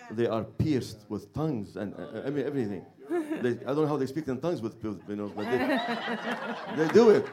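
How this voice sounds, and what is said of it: Lebanese-accented English. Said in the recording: “tell everybody what your accent is ... I'm from Beirut, Lebanon”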